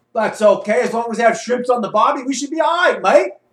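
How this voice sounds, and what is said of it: Put-on Australian accent. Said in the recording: “you will be performing this role in an Australian accent.”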